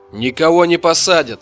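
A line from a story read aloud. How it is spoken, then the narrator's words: Laughing. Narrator (Russian): рассмеялся брат Майя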